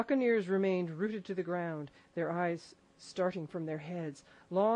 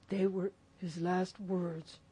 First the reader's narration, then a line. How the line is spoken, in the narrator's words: moaned Morgan